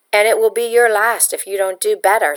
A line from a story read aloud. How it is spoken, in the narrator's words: Signor Carlotti growled